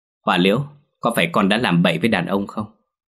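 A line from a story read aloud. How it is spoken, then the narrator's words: Harsh, stern questioning. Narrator (Vietnamese): Bà ba đanh sắc mặt gằn giọng hỏi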